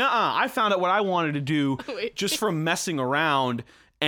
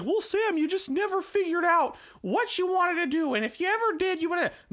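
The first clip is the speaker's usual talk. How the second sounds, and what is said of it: Fake voice mimicking a know-it-all. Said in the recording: “fake voice, one, the same as mine”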